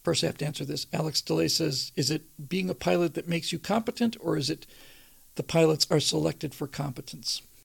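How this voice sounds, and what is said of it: Strained, hoarse, fading voice. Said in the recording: “I'm just losing my voice here”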